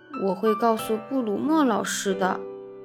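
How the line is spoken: Nervous mutter. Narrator (Chinese): 吉姆咽了一下口水，嘟囔着说

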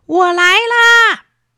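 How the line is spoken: Children calling repeatedly. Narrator (Chinese): 两个孩子也连声叫

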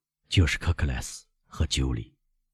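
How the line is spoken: Low voice. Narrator (Chinese): 莫雷尔低声说

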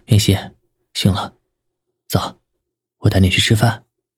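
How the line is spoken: Soft. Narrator (Chinese): 轻声道

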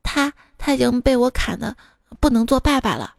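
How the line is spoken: Flat, calm. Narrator (Chinese): 小师弟淡淡的说

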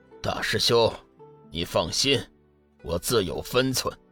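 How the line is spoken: Flat, indifferent. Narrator (Chinese): 天行上人淡淡的说

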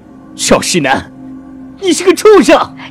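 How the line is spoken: Anguished roar. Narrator (Chinese): 灵泉心疼的吼声

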